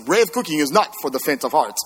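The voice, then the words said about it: Put-on French accent. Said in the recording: “now you got to get the French accent.”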